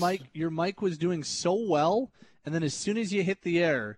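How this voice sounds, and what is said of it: Usual voice. Nothing is said of it.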